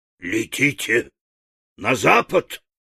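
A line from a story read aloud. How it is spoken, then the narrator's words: Growl. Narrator (Russian): прорычала волшебница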